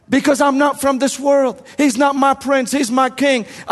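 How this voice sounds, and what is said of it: Speaks with a noticeable accent. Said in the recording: “I talk with an accent”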